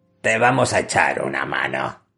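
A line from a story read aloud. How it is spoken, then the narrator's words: Growling giant. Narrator (Spanish): gruñó el jayán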